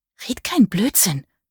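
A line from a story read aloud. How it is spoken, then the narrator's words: Hissing. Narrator (German): zischte sie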